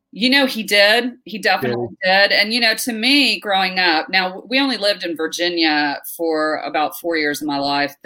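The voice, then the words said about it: Fast speech with Southern drawl. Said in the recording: “my accent is a combination of New York and Texas. So I speak really fast with a Southern drawl.”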